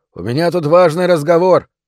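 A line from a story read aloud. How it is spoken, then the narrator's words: Shouting. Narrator (Russian): закричал я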